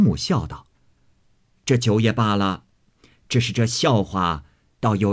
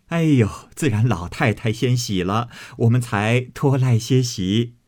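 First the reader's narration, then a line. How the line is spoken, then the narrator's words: Group laughing. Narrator (Chinese): 众人都笑道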